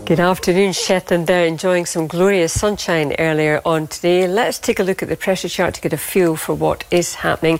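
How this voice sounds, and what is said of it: Strong Scottish accent. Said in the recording (Dutch): “geboren en getogen Schots ... zo'n sterk Schots accent heeft”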